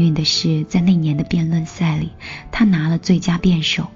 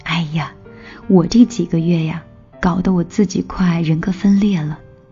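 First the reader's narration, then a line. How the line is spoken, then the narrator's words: Joking. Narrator (Chinese): 我这个朋友开玩笑的说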